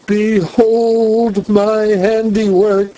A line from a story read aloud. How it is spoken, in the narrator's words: cried